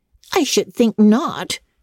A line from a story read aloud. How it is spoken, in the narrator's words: exclaimed Anna indignantly